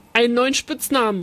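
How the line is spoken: Calling out. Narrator (German): rief Oli

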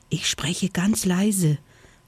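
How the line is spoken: Whisper. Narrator (German): flüsterte Vanille

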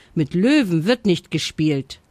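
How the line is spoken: Stern mother. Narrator (German): sagte seine Mutter streng

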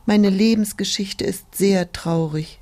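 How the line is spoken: Sighed. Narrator (German): die Tulpe seufzte

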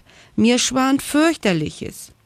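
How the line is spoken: Called down from above. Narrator (German): rief Frieda von oben herab

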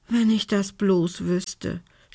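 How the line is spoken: Groan. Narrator (German): stöhnte Belinda

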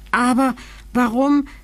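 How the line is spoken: Overwhelmed king stammering. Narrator (German): stammelte der König, dem fast Hören und Sehen verging

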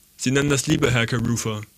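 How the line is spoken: Plain. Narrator (German): sagte ich

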